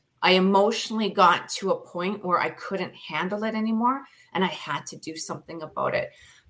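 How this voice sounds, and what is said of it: Speaks with a noticeable accent. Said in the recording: “I like your accent.”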